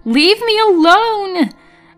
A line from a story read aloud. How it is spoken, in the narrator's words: I screamed